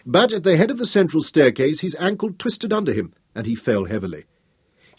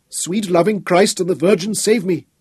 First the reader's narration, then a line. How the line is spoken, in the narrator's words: he pleaded as he staggered and lurched